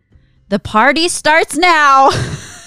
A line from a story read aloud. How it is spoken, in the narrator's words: he yells at the top of his lungs in English with an American accent